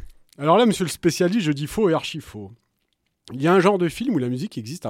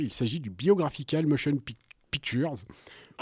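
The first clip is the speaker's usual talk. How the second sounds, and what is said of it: Put-on English accent. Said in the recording (French): “vous me passerez l'accent anglais ... t'en fais n'importe quoi, surtout”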